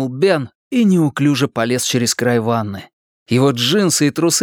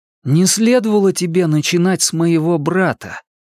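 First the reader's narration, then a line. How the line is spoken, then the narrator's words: Plain. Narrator (Russian): сказал он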